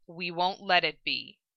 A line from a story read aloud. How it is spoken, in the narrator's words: Roy replied flatly, feeling his heartache at the thought